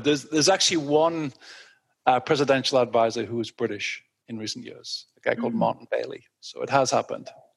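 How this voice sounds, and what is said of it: English accent. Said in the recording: “With an English accent.”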